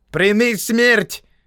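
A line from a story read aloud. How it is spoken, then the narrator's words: Shout. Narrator (Russian): крикнул Джама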